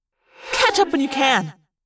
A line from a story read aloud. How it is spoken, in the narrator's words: Rachel snapped